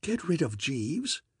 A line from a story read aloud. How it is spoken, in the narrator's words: I gasped